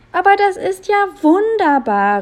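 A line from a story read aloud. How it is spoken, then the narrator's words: Enthusiastic exclamation. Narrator (German): rief er vor Begeisterung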